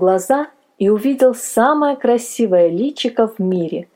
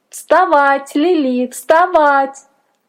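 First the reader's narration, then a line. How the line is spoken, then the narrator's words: Thin little voice shouting. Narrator (Russian): тоненький голосок кричал на ухо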